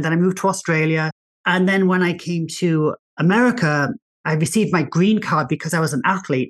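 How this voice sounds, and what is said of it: English accent. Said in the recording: “So I'm English. You might be able to tell by my accent. I'm English.”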